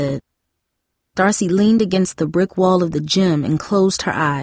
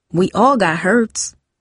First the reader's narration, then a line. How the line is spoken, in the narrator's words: Tara said